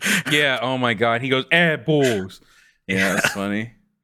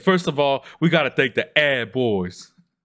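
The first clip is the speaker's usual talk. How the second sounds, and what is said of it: Mock southern accent. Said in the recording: “making fun of their accent, their southern accent”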